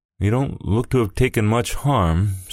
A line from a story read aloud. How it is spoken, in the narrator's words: said Mrs